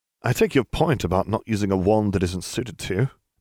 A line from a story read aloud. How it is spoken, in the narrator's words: Nev laughed